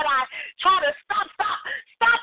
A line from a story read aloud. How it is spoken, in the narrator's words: I scream